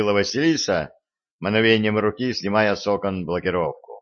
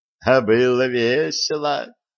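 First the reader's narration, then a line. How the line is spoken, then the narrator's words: Giggling goddess. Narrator (Russian): хихикнула богиня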